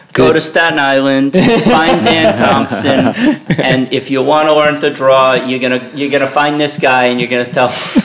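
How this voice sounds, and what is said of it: Put-on Brooklyn-ish New York accent. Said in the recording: “Is that a Brooklyn accent? ... It was sort of halfway between Chicago.”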